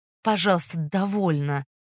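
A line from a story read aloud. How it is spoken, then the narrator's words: Soft but firm interruption. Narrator (Russian): Мягко, но решительно прервал живописательницу Фондорин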